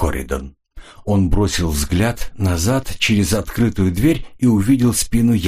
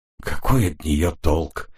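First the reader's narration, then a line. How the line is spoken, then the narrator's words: Hopeless question. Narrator (Russian): спросил Ренли безнадежным тоном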